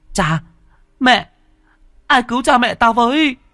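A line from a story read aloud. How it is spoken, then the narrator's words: Echoing desperate scream. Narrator (Vietnamese): Tiếng hét của cậu vang vọng khắp cả mặt sông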